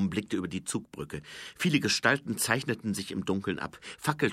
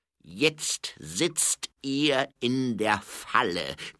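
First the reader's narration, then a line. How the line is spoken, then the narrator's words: Baroness growling. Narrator (German): knurrte die Baronin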